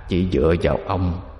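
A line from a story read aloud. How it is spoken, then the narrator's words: Hoarse raspy voice. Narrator (Vietnamese): Một âm thanh khàn khàn từ trong miệng thằng chổi phát ra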